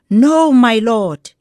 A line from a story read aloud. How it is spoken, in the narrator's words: they exclaimed